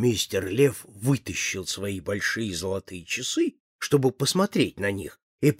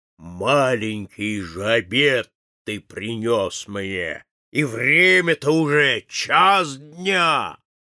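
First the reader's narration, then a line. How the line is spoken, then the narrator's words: Old lion roaring. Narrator (Russian): Старый лев зарычал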